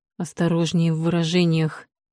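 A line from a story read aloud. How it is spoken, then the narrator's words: Angry hiss. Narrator (Russian): прошипел принц, и его красивое лицо исказило гримаса гнева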